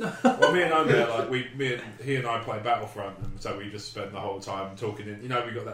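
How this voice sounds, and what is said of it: Usual voice. Nothing is said of it.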